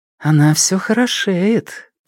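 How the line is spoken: Mumbling. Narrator (Russian): пробормотала Му Цзяньюнь

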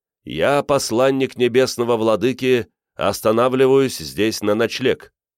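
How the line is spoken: Loud proclamation. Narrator (Russian): громко возгласил

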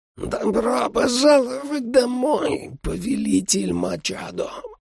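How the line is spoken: Hoarse vampire rasp. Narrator (Russian): прохрипел вампир

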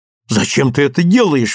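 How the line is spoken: Exclaiming. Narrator (Russian): воскликнула мать

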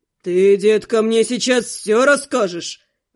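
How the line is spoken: Growling. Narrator (Russian): прорычал он

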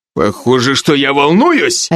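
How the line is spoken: Barked. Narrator (Russian): рявкнул Алви

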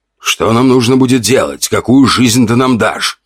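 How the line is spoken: Plain question. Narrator (Russian): спросил ушастый

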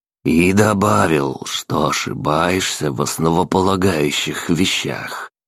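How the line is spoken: Calm old man's retort. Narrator (Russian): спокойно парировал старик

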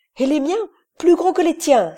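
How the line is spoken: Exclaimed, calling for help. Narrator (French): s'écriait Iverson, qui appelait Dole à son secours

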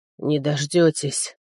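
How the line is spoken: Wheezing. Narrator (Russian): прохрипел

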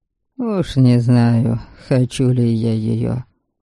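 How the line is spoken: Mumbled. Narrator (Russian): пробормотал Велим

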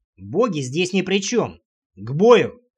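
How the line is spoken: Sharp bark. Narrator (Russian): рявкнул я

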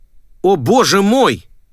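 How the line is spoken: Father shouting. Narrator (Russian): выкрикнул папа

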